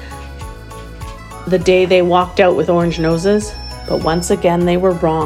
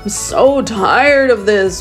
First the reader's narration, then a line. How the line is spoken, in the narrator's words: Woody moaned